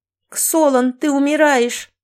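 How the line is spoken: Panicked frantic screaming. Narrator (Russian): Банги была в панике и орала, как бешеная

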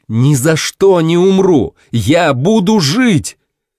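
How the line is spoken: Shouted in thought. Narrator (Russian): мысленно прокричал

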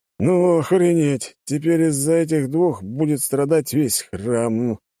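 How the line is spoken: Drunk man grumbling. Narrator (Russian): проворчал пьяный мужчина

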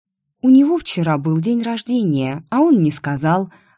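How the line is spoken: Offended. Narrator (Russian): обиженно выдала

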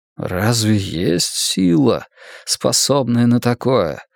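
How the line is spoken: Forced out with difficulty. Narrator (Russian): с трудом выдавил из себя истинный глаз мирового древа

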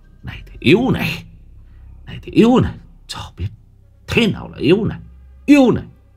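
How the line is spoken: Lustful ceaseless ranting. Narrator (Vietnamese): Miệng nó không ngừng thốt lên những lời đầy dục vọng

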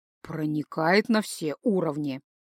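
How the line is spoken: Muttered. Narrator (Russian): пробормотал Гай

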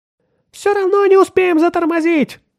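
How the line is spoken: Thin-voiced shout. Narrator (Russian): тонким голосом крикнул Отто

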